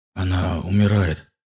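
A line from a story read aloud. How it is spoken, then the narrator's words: Agonized whisper. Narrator (Russian): спросил он мучительным шепотом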